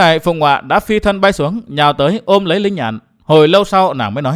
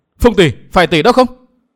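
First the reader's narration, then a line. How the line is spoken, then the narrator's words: Terrified cry. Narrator (Vietnamese): Linh Nhạn kinh hoàng la lên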